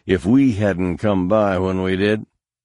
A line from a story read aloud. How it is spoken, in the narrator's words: Han said bitterly